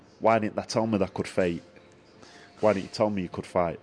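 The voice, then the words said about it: Put-on Sheffield accent. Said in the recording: “in the Sheffield accent”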